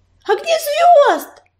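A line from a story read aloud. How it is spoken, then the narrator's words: Shouting. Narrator (Russian): закричала она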